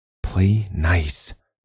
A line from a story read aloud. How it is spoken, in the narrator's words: reminded himself, a sigh creeping past his lips